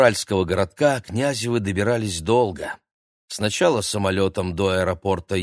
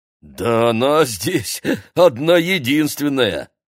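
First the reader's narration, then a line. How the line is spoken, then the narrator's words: Chuckling driver. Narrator (Russian): хохотнул водитель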